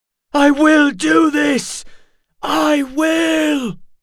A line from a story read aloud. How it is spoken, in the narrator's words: he shouted